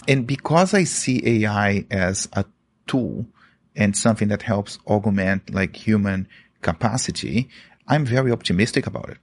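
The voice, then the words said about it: Brazilian accent. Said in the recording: “I am Brazilian. ... That's why I have this funny accent.”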